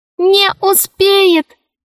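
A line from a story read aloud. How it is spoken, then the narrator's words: Squeaky voice. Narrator (Russian): пропищал мяч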